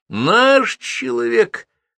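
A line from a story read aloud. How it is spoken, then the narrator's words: Joyful exclamation. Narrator (Russian): радостно восклицает Жбанков, узнав о сбежавшем муже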